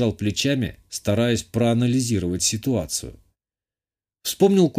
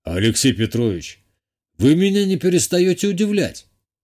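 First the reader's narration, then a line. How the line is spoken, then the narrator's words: Amused snort. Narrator (Russian): хмыкнул Виталий Алексеевич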